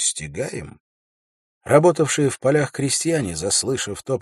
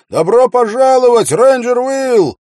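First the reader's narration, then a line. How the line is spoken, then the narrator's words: Young man shouting. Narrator (Russian): Один из них, самый молодой, крикнул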